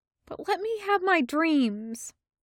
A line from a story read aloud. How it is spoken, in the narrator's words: says sadly